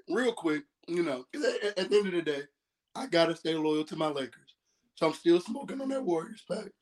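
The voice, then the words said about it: Hoarse, nearly lost voice. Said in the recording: “You see my voice is gone? ... Because I was screaming at Jordan Poole. ... you guys owe me a voice”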